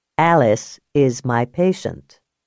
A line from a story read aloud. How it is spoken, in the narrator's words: Max said evenly